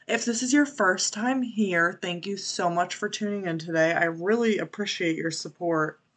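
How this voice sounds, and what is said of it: Congested voice from a cold. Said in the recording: “I sound a little different this week. I have a little bit of a cold or allergies”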